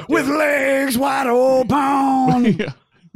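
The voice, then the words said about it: Sung imitation of a rock singer. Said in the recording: “That's a perfect impersonation of Creed”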